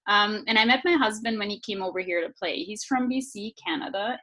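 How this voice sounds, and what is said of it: German accent. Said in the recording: “I'm German. ... I hear I have a Scandinavian or a French Canadian accent a lot, but I am actually from Bavaria in Germany.”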